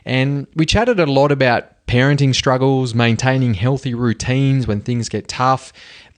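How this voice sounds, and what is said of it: Broad Australian Bogan accent. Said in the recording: “I'll have this Bogan accent for life ... you're going to hear my accent”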